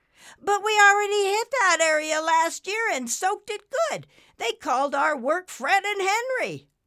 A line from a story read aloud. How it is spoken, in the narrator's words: One of the hurricane forces shouted back